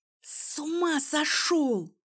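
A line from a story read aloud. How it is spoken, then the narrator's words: Hissing. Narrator (Russian): зашипела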